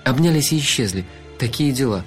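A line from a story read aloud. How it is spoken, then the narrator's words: Sigh. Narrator (Russian): вздохнула я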